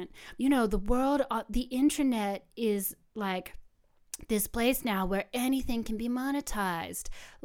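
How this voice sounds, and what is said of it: Deliberately bad San Francisco accent. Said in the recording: “I'm doing a really, really bad, like, San Francisco accent.”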